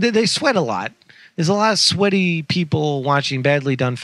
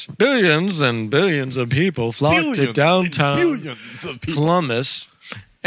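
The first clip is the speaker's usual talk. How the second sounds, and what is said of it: Imitates another person's voice. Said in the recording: “doing my Carl Sagan voice.”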